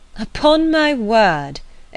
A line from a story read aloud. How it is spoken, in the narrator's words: exclaimed Emma